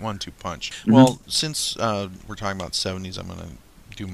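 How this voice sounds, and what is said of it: Usual voice. Nothing is said of it.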